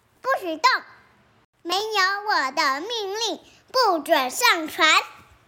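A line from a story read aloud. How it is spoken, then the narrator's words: Loud. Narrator (Chinese): 大声的对妈妈说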